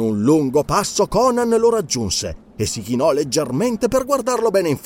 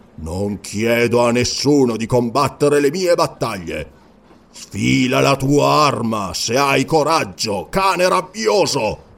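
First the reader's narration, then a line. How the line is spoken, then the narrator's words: Snarling like a cat. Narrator (Italian): ringhiando come un gatto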